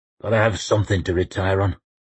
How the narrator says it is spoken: he muttered

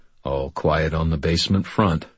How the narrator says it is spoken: Thomas murmured

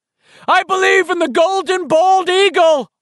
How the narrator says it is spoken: Stan screamed after it

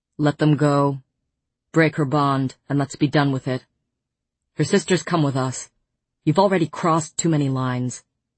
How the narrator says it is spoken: Tamlin said flatly to the king

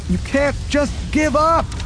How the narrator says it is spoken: shouted

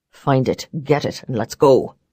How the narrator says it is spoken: Barons barked

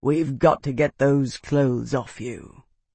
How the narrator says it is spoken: Bernard rumbled, his voice gentle

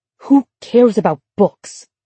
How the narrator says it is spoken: Emma said, furiously

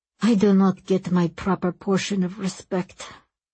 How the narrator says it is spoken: Ramasu muttered

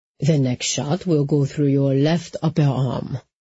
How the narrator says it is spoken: Aldrich said in the same maddeningly calm tone

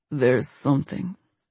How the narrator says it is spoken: he mumbled against her lips

